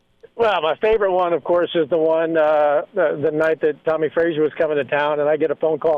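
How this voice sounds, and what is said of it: Usual voice. Nothing is said of it.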